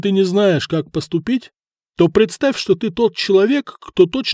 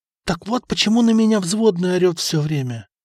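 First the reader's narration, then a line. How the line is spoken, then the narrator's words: Whisper of sudden realization. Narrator (Russian): прошептал Береслав, который внезапно все осознал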